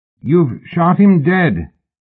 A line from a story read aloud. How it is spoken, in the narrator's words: he shouted upward